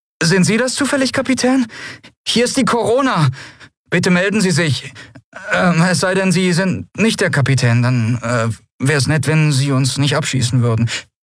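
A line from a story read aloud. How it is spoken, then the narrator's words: Nervous question. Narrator (German): eine nervöse Stimme fragte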